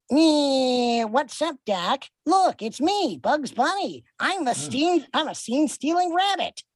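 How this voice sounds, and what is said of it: Bugs Bunny cartoon voice impression. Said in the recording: “impersonations ... Very good. ... Yeah, that's great.”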